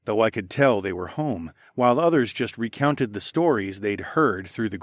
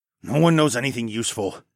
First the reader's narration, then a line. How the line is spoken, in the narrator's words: I growled